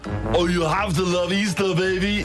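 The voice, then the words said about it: Arnold Schwarzenegger impression. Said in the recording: “Arnold Schwarzenegger ... Great impression. ... Oh, such a good impression. It's like he's in the room.”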